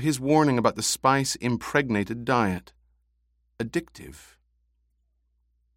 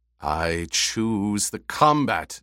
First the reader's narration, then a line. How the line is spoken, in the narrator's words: Jamis growled